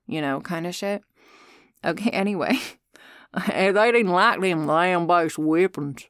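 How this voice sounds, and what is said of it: Usual voice. Nothing is said of it.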